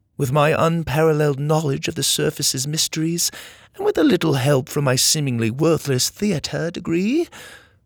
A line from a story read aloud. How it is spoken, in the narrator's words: Laney scoffed